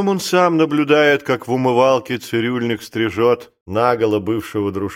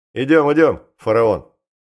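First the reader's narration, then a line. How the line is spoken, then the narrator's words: Cheerful, sly. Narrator (Russian): Весело, лукаво улыбаясь, он говорит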